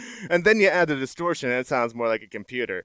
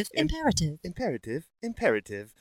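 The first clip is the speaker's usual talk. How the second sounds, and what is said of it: Robotic computer voice. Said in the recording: “you do a computer voice ... My computer voice? ... That was pretty good.”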